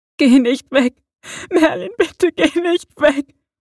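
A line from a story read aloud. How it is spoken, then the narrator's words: Sobbing, trembling man. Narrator (German): schluchzte er und klammerte sich zitternd an ihn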